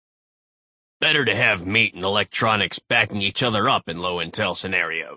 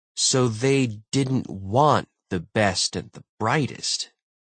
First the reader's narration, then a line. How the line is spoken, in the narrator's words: Brooks said slowly